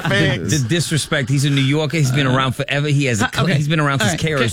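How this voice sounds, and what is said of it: Exaggerated New York accent. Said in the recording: “anytime you mention New York, can you stop with the accent”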